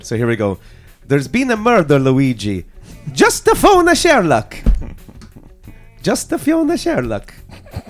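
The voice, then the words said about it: Put-on Italian accent. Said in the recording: “I'm going to put on an Italian accent ... Not sure the Italians would agree with the accent.”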